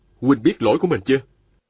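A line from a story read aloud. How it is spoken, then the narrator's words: Stern question. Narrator (Vietnamese): Viên Thừa Chí nghiêm giọng hỏi hắn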